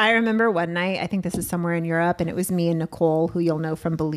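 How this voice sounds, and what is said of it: Usual voice. Nothing is said of it.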